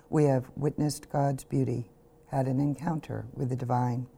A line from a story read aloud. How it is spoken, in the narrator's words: his father said quietly